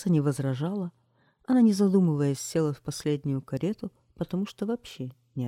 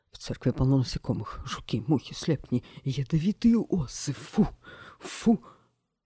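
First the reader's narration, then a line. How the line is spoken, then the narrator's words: Muttering. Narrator (Russian): бормотал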